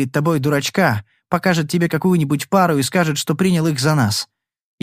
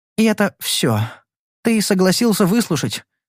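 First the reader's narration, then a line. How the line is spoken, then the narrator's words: Soft, gentle. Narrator (Russian): сказала мягко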